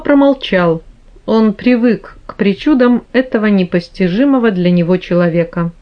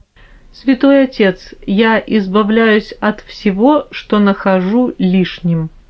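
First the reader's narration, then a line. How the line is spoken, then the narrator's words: Calm. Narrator (Russian): спокойно сказал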